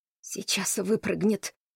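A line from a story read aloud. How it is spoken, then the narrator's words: Loud complaining whisper. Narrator (Russian): пожаловался громким шепотом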